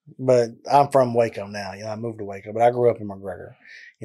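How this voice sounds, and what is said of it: Deep Southern US drawl. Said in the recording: “as you can tell with the southern draw in my accent ... you just have like the deepest southern draw I've ever heard ... it's country”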